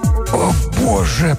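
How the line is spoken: Hoarse wheeze. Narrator (Russian): прохрипел Блаувельд

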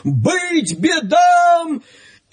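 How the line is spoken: Crowd shouting. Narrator (Russian): крестьяне и миряне, православные христиане, закричали

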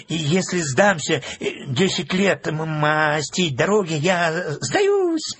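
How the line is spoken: Stammering mutter. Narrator (Russian): Запинаясь, бормотал он

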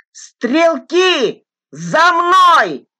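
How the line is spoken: Shout over din. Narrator (Russian): Перекрывая грохот, крикнул Фок

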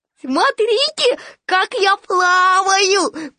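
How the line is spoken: Squeaky voice. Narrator (Russian): пропищал Ру

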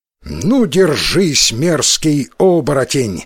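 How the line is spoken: Exclamation. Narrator (Russian): воскликнул Исикотаро

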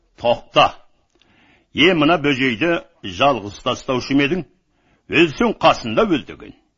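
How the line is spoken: Roared command. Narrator (Kazakh): Байдалы ақырып бұйрық етті

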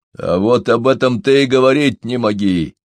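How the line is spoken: Furious growl, wolfhound. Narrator (Russian): мгновенно рассвирепев, с неожиданной яростью зарычал волкодав

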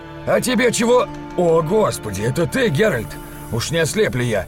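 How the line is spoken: Shouted. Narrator (Russian): крикнул

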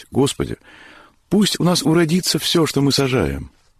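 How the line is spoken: Pleading prayer. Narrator (Russian): взмолились

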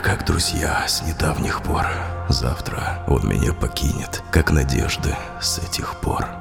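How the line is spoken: Sudden whisper, sighing. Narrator (Russian): шептал я вдруг, вздохнувши

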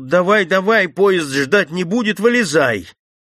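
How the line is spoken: Commander shouting. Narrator (Russian): Командир крикнул

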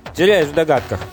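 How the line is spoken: Plain. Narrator (Russian): ответил Сильварадж

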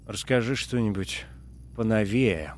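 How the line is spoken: Groaning. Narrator (Russian): простонал Джордж

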